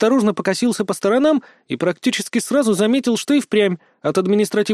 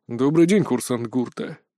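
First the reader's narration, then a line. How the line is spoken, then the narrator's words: Quiet greeting. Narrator (Russian): негромко поприветствовал меня лэнд-директор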